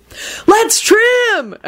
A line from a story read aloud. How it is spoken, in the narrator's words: Everyone yelled